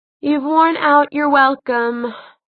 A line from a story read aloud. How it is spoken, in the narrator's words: Magnus said lazily